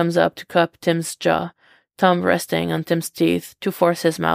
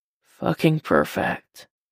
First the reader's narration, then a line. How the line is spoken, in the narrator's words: he says under his breath